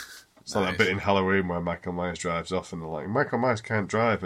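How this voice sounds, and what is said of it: Usual voice. Nothing is said of it.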